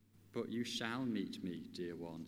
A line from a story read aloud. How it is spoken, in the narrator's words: said Aslan